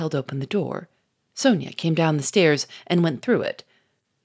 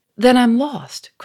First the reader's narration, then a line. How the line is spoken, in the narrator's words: cried Sonia in a panic-stricken voice